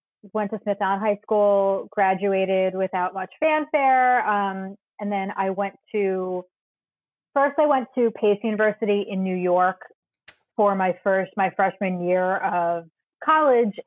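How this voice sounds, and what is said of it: Long Island New York accent. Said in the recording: “I grew up about 50 miles from where I sit in New York City right now on Long Island ... You might be able to tell by my accent where I'm from”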